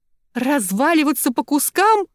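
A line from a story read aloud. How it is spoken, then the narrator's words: Shrill squeal. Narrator (Russian): взвизгнула Тильда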